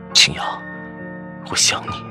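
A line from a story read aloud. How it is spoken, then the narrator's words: Low, tender. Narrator (Chinese): 他 低声道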